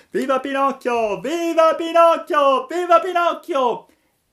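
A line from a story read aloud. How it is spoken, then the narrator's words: Boys shouting. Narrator (Italian): i ragazzi cominciarono a urlare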